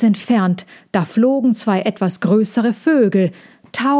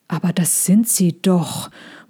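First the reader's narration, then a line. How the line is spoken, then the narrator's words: Murmuring. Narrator (German): murmelte Sejana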